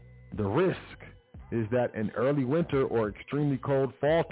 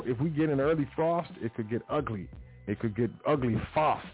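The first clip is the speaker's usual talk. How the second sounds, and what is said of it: Put-on British accent. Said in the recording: “I don't know why I said it with a with a British accent.”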